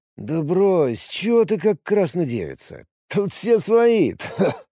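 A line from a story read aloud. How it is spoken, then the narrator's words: Chuckling. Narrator (Russian): Он хохотнул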